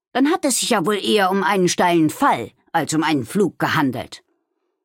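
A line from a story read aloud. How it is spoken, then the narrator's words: Man growling. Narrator (German): knurrte er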